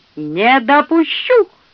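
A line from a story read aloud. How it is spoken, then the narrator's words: Old man's shrill squeal. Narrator (Russian): взвизгнул старейший песнопевец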